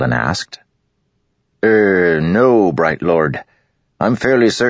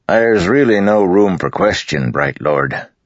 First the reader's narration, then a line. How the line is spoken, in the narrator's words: Avaran said